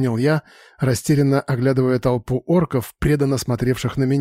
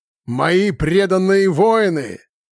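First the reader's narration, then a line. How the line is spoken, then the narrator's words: Loud proclamation in silence. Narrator (Russian): громко провозгласил я в наступившей после моих слов тишине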